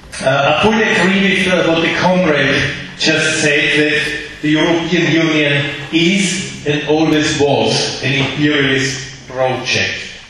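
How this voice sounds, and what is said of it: Middle European accent. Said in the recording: “my Middle European accent”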